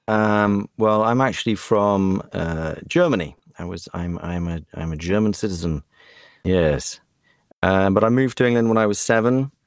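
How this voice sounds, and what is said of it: Very British accent. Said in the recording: “you still have right now, a very British accent”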